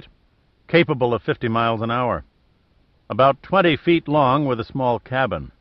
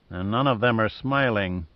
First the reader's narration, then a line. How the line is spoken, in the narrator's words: muttered Giordino